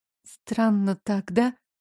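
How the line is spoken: Whisper. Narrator (Russian): прошептала

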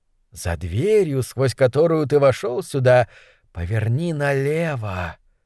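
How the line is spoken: Weak prisoner's whisper. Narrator (Russian): Силы быстро оставляли узника, он не мог больше говорить, только шептал

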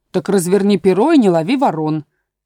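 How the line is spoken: Angry interruption. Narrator (Russian): сердито перебила овца

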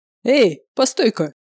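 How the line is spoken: Loud bark. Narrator (Russian): гаркнул он

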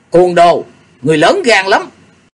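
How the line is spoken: Angry shout. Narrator (Vietnamese): thiếu nữ áo hồng ở kế bên tức giận thét lớn

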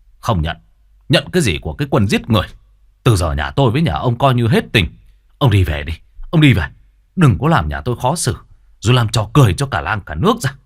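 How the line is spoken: Shouting and cursing. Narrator (Vietnamese): Hai anh em lão vừa quát vừa chửi ông già

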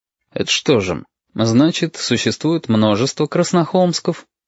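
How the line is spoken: Fairly even inquiring tone. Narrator (Russian): Довольно ровным тоном поинтересовался Валентин

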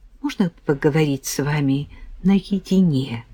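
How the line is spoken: Quiet question. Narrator (Russian): тихо спросила

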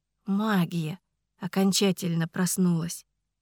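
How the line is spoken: Quiet. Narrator (Russian): тихо сказал Ричард

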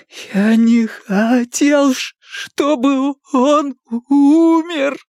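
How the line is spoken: Sobbing. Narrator (Russian): продолжал рыдать

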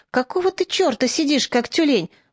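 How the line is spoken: Quick whisper. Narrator (Russian): быстро зашептал Чиж на ухо Мечику

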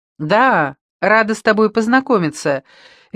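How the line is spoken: Cheerful child's exclamation. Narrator (Russian): весело воскликнула ее 11-летняя дочь Лекси

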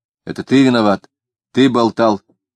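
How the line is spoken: Said angrily. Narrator (Russian): сердито сказал он

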